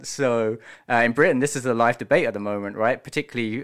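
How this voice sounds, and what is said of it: British accent. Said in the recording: “I'm British, you may be able to tell from the accent.”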